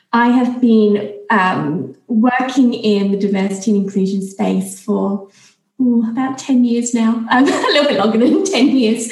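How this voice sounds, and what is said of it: British accent with slight Australian twang. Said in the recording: “You might notice there's a bit of a twang in my accent. I have been living and working in Australia for the past 12 years.”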